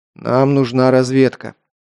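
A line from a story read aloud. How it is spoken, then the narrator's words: Gloomy speech. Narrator (Russian): мрачно сказал Александр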